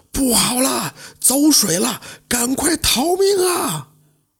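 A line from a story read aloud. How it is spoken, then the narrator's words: Loud alarmed shout. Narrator (Chinese): 院子里有人高声呼喊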